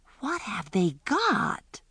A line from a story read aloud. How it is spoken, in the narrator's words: Alice whispered